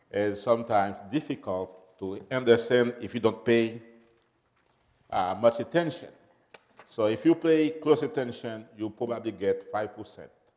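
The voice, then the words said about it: French accent. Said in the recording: “I don't have a Yankee accent or the Southern accent, you know. I have a French accent.”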